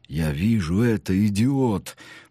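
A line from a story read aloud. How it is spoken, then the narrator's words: Irritated. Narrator (Russian): повторил полковник Бишоп раздраженно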